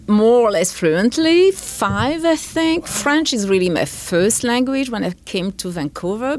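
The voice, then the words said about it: French accent in English. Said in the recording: “you may still hear a little French accent here and there ... more than a little”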